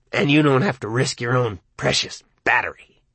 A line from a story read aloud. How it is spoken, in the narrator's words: spat